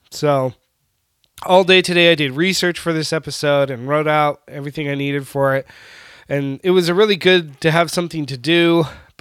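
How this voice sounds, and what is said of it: Slightly scratchy voice. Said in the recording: “my voice is still a little scratchy, if you can hear it.”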